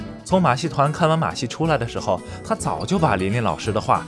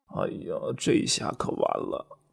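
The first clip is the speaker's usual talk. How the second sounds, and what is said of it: Quiet muttering voice. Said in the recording (Chinese): “小声嘀咕着”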